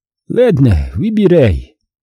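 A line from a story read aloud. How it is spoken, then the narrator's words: Displeased sigh. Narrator (Russian): вздохнула Юб, недовольно скривившись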